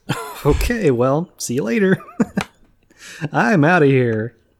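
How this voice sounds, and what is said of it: Radio DJ voice. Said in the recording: “your radio DJ voice”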